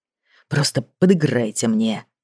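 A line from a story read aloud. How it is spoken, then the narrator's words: Whisper. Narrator (Russian): прошептал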